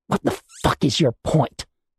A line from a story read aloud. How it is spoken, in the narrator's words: Tally spat, anger taking over from shock